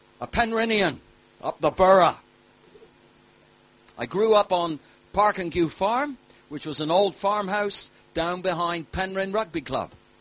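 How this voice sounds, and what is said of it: Cornish English accent. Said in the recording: “I'm a Cornishman, through and through, if you haven't heard the accent.”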